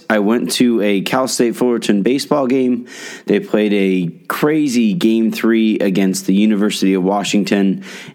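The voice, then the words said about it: Strained voice from screaming. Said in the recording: “I'm sorry about my voice. ... I screamed my lungs out.”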